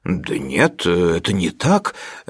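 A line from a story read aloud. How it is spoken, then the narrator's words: Uncertain objection. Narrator (Russian): неуверенно возразил он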